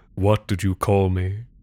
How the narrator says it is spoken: in that deep, calm voice of hers, she said

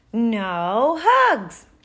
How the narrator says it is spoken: wailed Bernard, frowning

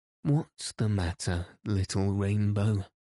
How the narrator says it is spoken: Said he, in a sleepy tone

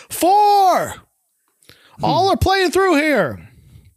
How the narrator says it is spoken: Thurston yelling

